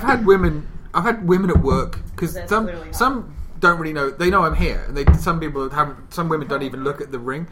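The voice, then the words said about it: British accent. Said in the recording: “I love your voice ... my accent ... he's pretty British”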